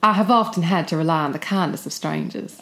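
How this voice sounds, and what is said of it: Put-on American Southern accent. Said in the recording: “Do your best Southern... Oh my God, you're so Charleston Gone with the Wind... Oh, that's so good.”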